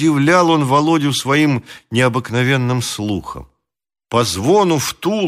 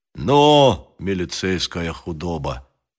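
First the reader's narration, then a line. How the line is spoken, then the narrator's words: Quiet. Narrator (Russian): сказал Грищенко негромко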